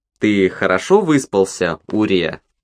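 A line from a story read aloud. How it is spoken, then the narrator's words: Cheerful question. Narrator (Russian): весело спросила она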